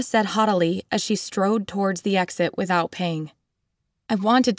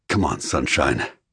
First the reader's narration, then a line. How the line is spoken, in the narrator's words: Ari murmured hoarsely